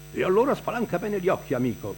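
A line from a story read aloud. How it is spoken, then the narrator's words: Keeps shouting. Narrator (Italian): continua a gridare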